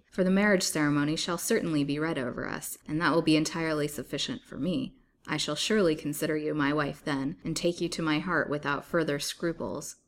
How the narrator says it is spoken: he answered, laughing harshly

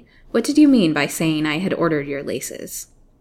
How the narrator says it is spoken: said the lady sharply

